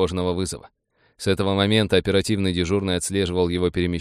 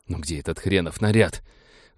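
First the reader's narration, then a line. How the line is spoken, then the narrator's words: Breathless exhale, breaking into run. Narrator (Russian): выдохнул Грэм, срываясь на бег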